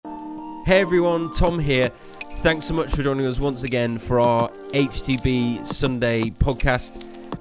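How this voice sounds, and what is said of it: Slightly hoarse, partly lost voice. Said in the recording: “my voice sounds a little bit different... I've slightly lost my voice”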